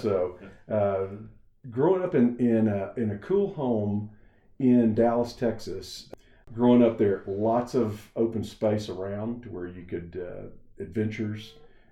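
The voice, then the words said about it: Slight Texas accent. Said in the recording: “you're going to catch a little bit of the accent from Texas”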